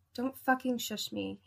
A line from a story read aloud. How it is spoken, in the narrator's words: he whispered